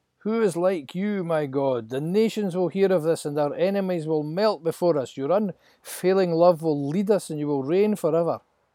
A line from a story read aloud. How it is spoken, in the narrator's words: Moses shouts